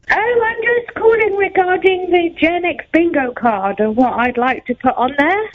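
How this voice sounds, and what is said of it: British accent. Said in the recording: “my beautiful accent ... it could be one of three British people I know”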